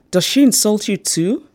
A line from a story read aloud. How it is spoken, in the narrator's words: I exclaimed